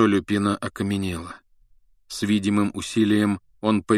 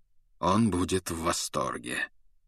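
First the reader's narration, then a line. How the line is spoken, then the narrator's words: Cold remark. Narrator (Russian): холодно заметил Люпин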